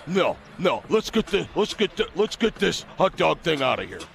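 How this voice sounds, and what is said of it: Poor imitation of another person's voice. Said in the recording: “worst Bo Pelini impersonation ever ... I can't do it very well”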